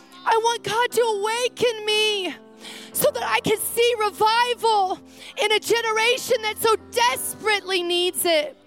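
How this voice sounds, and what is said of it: Passionate, excited yelling. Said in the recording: “I'm sorry I'm yelling, but I'm like passionate and I'm excited”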